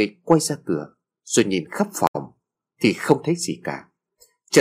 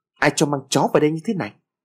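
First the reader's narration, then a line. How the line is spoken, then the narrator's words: Woman shouting loudly. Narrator (Vietnamese): bà ta quát lớn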